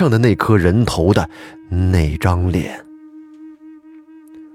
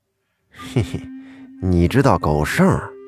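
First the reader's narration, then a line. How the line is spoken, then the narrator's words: Surprised, slightly amused. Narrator (Chinese): 那个人诧异的声音也带着一些笑意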